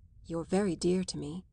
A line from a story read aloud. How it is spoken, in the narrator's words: murmured, trying to believe that there was, after all, such a thing as hospitality